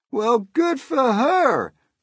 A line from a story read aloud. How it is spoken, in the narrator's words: the cops cried out